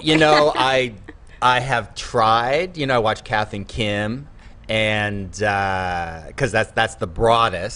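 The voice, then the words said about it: Strong American accent, slight drawl. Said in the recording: “you still got that American accent really strong ... Maybe a slight drawl and maybe some R's and a little bit laid back”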